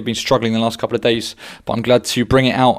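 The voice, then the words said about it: Croaky voice. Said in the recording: “As you can hear, my voice is a little bit croaky.”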